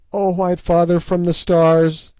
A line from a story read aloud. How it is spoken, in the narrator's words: she cried